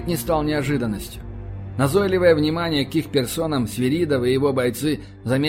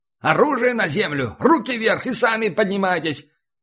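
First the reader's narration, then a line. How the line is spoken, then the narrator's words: Shouted in Russian. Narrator (Russian): кричали на русском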